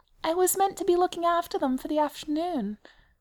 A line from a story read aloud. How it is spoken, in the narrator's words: he said feebly